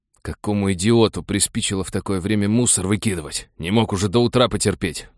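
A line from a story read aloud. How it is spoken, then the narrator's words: Angry growl. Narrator (Russian): прорычал спецагент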